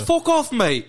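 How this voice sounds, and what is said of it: Put-on British accent. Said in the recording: “Nobody with a British accent could ever pressure me ... they all sound like fucking Peppa Pig”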